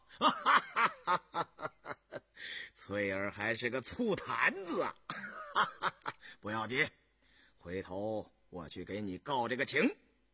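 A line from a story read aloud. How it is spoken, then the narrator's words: Laughing. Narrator (Chinese): 红丽笑了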